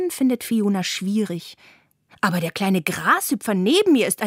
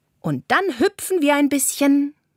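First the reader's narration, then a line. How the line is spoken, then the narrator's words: Calling out. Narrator (German): ruft Carla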